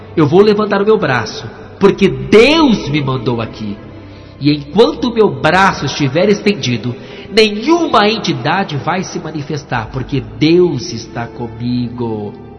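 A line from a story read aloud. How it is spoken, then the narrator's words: Loud shout. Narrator (Portuguese): ela gritou bem alto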